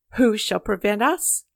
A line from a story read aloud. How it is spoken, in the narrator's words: laughed a big man, amused at the fierce little figure fronting him